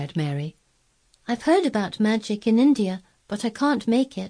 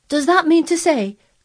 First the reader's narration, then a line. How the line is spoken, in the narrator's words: cried Martha, with wide open eyes